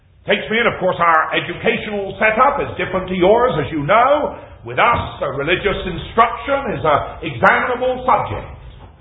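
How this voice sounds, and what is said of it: Slow, deep English West Country accent. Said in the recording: “I am an Englishman ... I talk West Country. I am not an American. We do speak a little slower where I come from. We do speak maybe with a little deeper accent than some places in England. But I am a West Countryman.”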